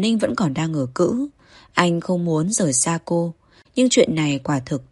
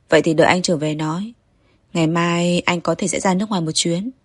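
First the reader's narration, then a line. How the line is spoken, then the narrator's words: Smiling. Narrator (Vietnamese): Kỳ Duyệt Hành mỉm cười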